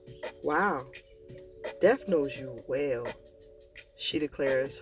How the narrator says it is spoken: her voice breathy and low

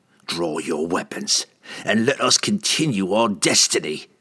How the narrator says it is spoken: Entreri growled

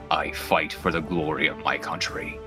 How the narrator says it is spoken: Zagrani leans all the way down into your face and just growls at you

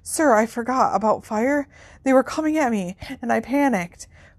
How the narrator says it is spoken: panted Harry

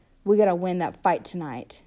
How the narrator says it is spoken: Dally said, and his voice was hard

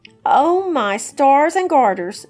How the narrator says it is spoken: she exclaimed

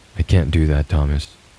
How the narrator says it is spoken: I said calmly

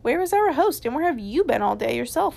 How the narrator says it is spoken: all cried

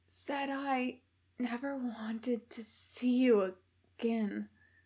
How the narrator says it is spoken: Aziraphale managed to whisper with much effort

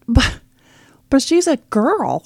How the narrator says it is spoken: he whined, looking horrified

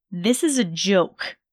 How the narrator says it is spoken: Draco growled, with disdain

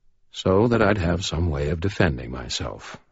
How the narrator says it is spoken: Michael said gently

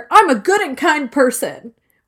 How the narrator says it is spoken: he's yelling at her

